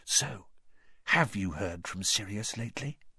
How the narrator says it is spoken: he said very quietly to Harry

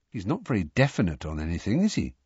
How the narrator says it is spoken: said Ron, in a low voice

